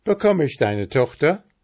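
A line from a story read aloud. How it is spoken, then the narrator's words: Calling out. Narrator (German): rief er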